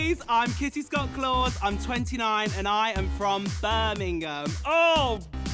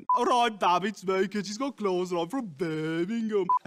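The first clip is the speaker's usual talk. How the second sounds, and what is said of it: Put-on Birmingham accent. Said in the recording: “That was not a Birmingham accent.”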